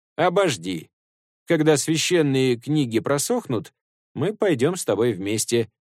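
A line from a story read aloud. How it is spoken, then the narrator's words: Plain. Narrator (Russian): ответил Сунь-Кун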